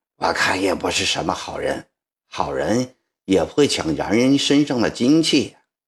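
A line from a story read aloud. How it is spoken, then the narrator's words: Old woman, low voice. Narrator (Chinese): 吴姥姥低声地说着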